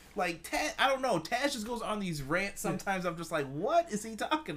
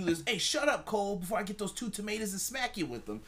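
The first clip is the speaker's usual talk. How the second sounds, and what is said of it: Imitates another person's accented voice. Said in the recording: “He always seamlessly transitions into that accent. ... No, it's great. ... It's Taz.”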